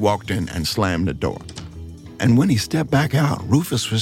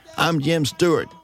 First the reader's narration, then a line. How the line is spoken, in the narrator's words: the man said